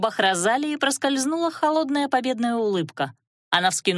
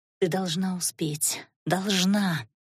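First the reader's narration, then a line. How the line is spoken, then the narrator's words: Incantatory whisper. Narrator (Russian): Полуэльфийка, как заклинание, шептала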